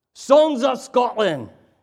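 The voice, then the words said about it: Put-on Scottish brogue. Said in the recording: “My Scottish brogue will go crazy.”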